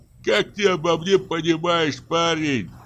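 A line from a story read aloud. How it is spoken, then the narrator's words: Groaning forester. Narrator (Russian): простонал лесник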